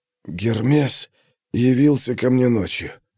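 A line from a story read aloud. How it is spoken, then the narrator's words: Insistent hoarse rasp. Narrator (Russian): продолжал настойчиво хрипеть Архий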